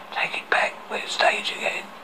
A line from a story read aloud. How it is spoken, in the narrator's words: He whispered loudly